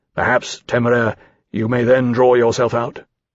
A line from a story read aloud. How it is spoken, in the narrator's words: Lawrence said grimly